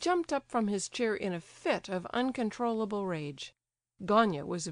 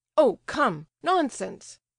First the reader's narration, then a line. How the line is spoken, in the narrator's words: cried Gania